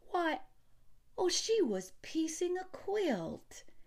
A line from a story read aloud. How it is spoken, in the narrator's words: she exclaimed